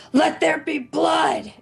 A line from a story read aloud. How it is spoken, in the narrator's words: she's going to just scream out